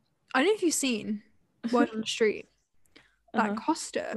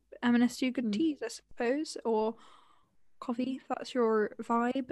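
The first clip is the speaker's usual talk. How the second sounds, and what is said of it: Speaks in a put-on accent. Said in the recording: “I don't know why I said that with an accent.”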